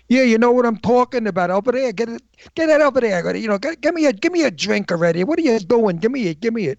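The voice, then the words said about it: Heavy old-fashioned Brooklyn accent. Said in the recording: “the most dreadful Brooklyn accent, really heavy, heavy accent ... antique Brooklyn”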